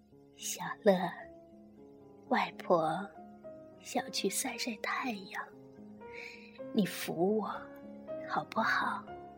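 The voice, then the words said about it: Hoarse, raspy old woman's voice. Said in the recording (Chinese): “她用沙哑的声音说”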